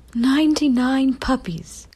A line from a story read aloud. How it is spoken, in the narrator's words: cried Pongo